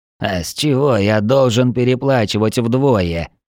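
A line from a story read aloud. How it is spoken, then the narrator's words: Zombie grumbling. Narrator (Russian): проворчал зомби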